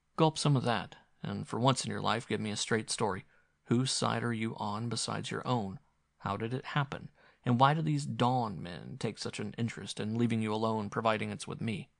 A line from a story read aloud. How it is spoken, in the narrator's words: he said gently